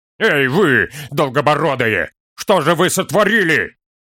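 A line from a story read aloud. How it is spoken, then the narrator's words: Sudden angry shout. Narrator (Russian): Вдруг зло закричал Торин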